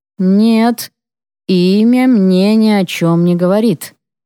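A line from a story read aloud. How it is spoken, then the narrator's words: Slow reply. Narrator (Russian): медленно отвечает он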